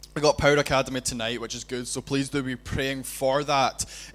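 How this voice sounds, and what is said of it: Glaswegian accent, loud booming voice. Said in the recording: “I feel quite boomy ... I don't sound so loud ... Glaswegian accent.”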